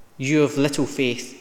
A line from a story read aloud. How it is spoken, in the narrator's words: he said